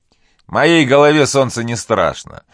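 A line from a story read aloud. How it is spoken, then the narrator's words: Laughing reply. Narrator (Russian): смеясь, ответил Азиз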